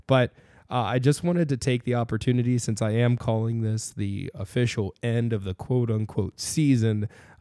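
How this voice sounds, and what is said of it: Congested, sick-sounding voice. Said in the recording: “As you can tell by my voice, I'm still getting over a little bit of a cold or a flu”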